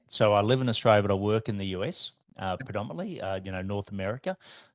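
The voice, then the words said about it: Australian accent. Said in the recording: “I've got an Australian accent.”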